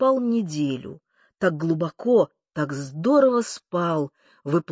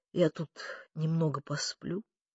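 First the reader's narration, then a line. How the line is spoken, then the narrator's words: Sluggish mutter. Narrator (Russian): вяло пробормотал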